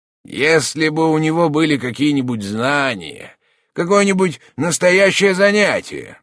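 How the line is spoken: Annoyed grumbling. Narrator (Russian): досадливо ворчал Шпельман

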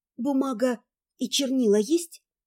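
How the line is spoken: Hoarse question. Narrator (Russian): спросила хрипло

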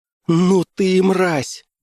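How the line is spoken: Exclaiming. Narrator (Russian): воскликнула

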